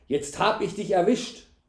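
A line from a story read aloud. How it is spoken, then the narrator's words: Called out. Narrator (German): rief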